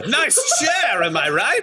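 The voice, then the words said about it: Character voice of the Emperor. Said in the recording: “You do an impression of the Emperor ... I speak with his voice ... How is he doing that?”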